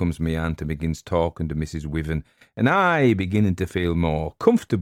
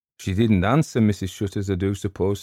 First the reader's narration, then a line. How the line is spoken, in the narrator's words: says she